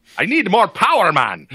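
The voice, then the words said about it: Scottish accent impression of Scotty. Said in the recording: “I would try and do a Scottish accent ... I'm trying to do Scotty”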